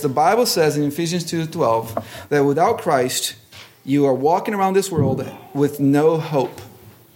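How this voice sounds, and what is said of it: Strong accent, hard to understand. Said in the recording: “this guy with this accent that makes things difficult to understand”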